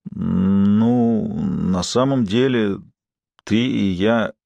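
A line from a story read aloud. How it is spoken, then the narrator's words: Hesitant. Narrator (Russian): неуверенно начинает он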